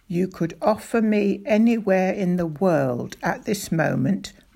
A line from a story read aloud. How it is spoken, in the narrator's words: my father said